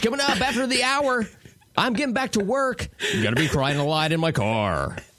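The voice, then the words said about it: Radio announcer voice. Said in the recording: “you have a good radio voice”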